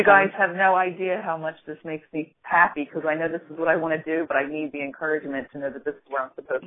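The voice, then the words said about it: Brooklyn-sounding accent. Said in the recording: “You sound just like one of my clients from, where is she from? Brooklyn. Yeah, Brooklyn. I love your accent.”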